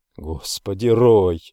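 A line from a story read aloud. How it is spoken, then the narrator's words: Breathless exclamation. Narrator (Russian): выдохнул я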